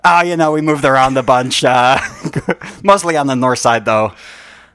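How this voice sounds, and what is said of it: Put-on Chicago accent. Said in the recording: “Your accent is a lot more consistent this time than it was the first time ... more and more Chicago in me ... Your accent is still developing?”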